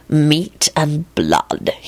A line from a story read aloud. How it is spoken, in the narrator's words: he told her in an ominously satisfied voice